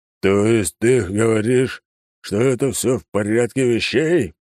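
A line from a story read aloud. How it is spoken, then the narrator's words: Growled. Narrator (Russian): прорычал император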